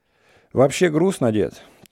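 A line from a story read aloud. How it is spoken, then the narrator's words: Sigh. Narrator (Russian): тоже вздохнул Иван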